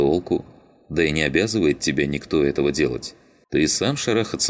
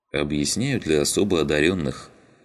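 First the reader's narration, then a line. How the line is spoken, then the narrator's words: Sigh. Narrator (Russian): вздохнул Щербатый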